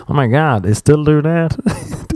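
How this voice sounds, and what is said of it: Bad put-on American accent. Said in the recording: “he was American ... That was the worst American accent ... the worst accents that I can muster”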